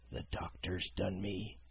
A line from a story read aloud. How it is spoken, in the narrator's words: he murmured